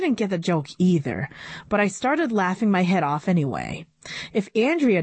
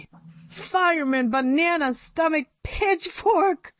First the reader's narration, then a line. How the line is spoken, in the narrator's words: howled